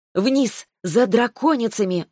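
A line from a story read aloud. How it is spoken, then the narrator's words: Exclaiming. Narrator (Russian): воскликнула я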